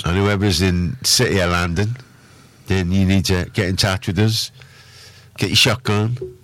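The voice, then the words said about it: Badly done put-on accent. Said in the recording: “That's an awful accent. ... Terrible, isn't it? ... That's terrible. ... It's nowhere near what it should be”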